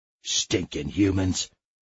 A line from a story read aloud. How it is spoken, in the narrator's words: growled Barky, the environmental dog